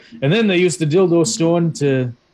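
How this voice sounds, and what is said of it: Thick Scottish accent. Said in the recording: “in a thick Scottish accent”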